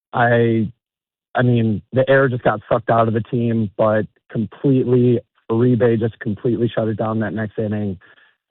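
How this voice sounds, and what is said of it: Hoarse, nearly lost voice. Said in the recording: “my voice is completely gone... losing your voice”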